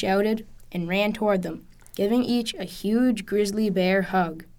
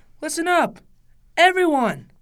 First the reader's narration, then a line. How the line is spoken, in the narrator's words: He called out